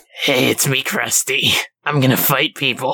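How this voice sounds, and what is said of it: Comic character voice. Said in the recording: “that's my official Krusty voice”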